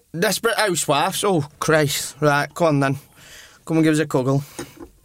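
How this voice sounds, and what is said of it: Put-on Yorkshire Leeds accent. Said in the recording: “40-year-old proper Yorkshire Leeds accent.”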